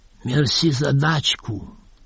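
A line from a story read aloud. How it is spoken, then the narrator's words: Quiet, hushed. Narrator (Russian): Последнее слово он выговорил тихо, чтоб не расслышал старшина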